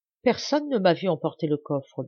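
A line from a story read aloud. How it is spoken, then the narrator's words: Stammered. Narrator (French): balbutia-t-il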